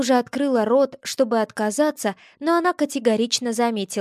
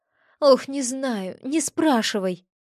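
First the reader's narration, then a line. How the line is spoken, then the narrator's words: Sighing. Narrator (Russian): вздохнула я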